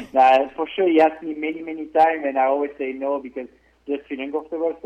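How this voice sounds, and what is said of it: Strong foreign accent in English. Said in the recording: “some people may struggle with the accent, understanding him a little bit”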